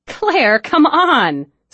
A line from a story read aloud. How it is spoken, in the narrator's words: Sydney said, laughing